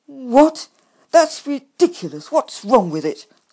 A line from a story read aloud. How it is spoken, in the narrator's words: I cried indignantly